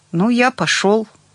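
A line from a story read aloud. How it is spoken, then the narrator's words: Timid. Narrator (Russian): робко сказал он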